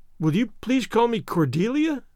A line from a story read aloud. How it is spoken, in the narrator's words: she said eagerly